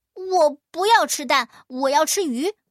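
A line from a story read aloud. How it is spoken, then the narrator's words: Whiny yelling. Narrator (Chinese): 大个子老鼠直嚷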